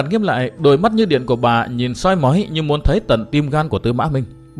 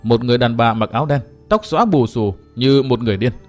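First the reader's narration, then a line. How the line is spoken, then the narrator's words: Cold. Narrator (Vietnamese): Tư Mã Minh lạnh lùng nói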